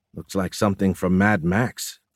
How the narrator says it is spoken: Tran said quietly

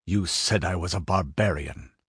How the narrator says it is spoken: he said harshly

